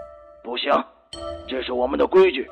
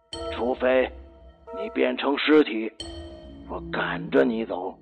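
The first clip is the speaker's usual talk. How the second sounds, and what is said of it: Speaking softly, in a low voice. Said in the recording (Chinese): “小声的说”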